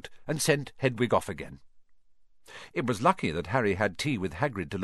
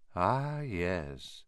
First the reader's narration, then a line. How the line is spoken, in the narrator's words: he said softly